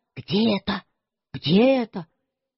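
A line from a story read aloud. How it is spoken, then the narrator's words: Very soft whisper. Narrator (Russian): совсем шепотом сказал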